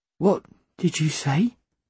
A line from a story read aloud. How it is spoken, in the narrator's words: I asked her as gently as I could